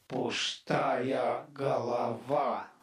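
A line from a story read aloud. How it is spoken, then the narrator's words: Sudden groan. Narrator (Russian): внезапно простонал он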